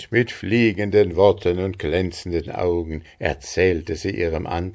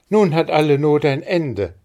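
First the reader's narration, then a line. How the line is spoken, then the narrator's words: Called out. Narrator (German): rief Maren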